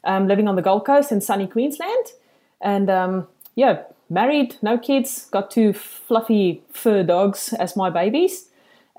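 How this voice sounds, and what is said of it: Thick South African accent. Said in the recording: “I'm an expat from South Africa, as you can hear by this thick accent... It's a gorgeous accent.”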